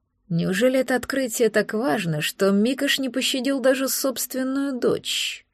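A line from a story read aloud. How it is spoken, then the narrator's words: Muttered, relieved and angry. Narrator (Russian): Пробормотал, испытывая смесь облегчения и злости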